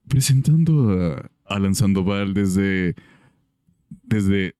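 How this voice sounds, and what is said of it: Exaggerated announcer voice. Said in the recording (Spanish): “voz de locutor. ... Voz de locutor.”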